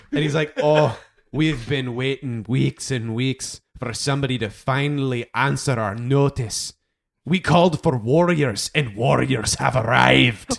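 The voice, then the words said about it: Character voice with funny accent. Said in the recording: “Tuck is genuinely laughing at this guy's accent.”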